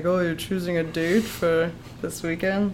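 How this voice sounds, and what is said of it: Imitation of Alfred's voice. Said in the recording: “That was my Alfred impression.”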